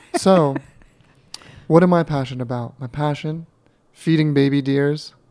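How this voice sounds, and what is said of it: Deliberately sexy, sultry voice. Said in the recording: “my voice gets really sexy”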